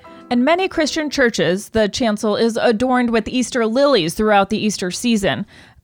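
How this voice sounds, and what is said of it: News anchor reading voice. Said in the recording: “in my news voice ... do this in your news voice ... This is how my news reads usually go.”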